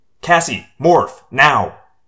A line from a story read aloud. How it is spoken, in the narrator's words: I snapped